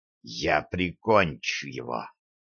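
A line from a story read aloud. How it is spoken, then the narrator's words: Hissing. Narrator (Russian): прошипел Льюз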